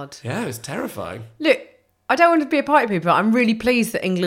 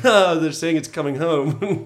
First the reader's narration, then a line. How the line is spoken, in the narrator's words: sort of laughed and was like